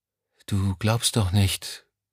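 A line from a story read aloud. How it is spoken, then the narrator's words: Woman speaking quietly. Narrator (German): sagte sie leise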